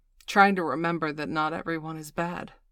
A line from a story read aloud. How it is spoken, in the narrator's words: Miss Angeli said bitterly between bites of her double-double